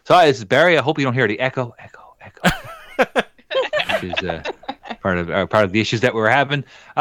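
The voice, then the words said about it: Natural Eastern Canadian accent. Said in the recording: “the far east of Canada ... I guess inherently I have an accent, so I'll do my natural one”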